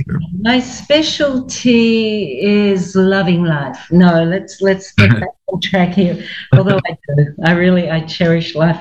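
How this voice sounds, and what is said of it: Australian accent. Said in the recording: “my accent isn't quite Philadelphian or New Yorkian. It's Australian. It won't leave me”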